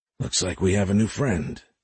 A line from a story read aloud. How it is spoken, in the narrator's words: X whispered